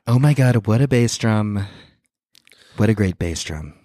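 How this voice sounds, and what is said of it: Imitates another person's voice. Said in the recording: “That's my Trump impression.”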